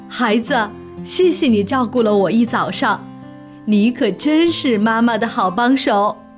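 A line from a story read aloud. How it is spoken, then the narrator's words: Happy, laughing. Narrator (Chinese): 熊妈妈立刻高兴起来了，笑着对他说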